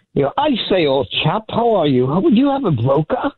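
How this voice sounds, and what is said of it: Unconvincing put-on British-style accent. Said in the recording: “I figured I'd do a little accent. I love that man's accent ... Is that an accent? I thought you had a mild stroke just now.”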